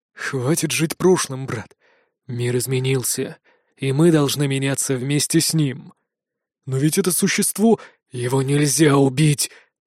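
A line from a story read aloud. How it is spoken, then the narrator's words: Breathless exhale. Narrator (Russian): Выдохнул Итан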